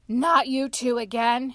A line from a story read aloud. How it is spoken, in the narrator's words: he groaned